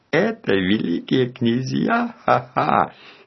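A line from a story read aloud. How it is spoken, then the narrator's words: Laughing. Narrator (Russian): Смеялась Жанетта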